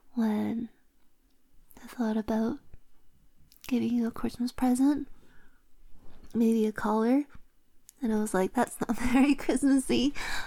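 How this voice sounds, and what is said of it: Breathless, sniffly congested voice. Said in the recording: “I'm out of breath. ... I'm sniffly. ... My nose is itch. ... I've been on and off sick”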